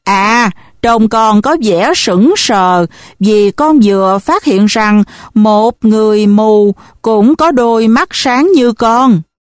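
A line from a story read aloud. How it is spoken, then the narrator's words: Smiling. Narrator (Vietnamese): thầy Linh Hướng mỉm cười và nói với tôi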